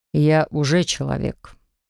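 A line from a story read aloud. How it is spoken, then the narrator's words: Deceptively calm tone. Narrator (Russian): сказал Максим обманчиво спокойным тоном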